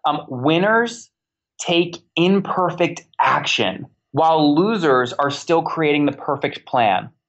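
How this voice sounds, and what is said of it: Slow, deliberate speech. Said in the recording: “I'm going to say it slowly”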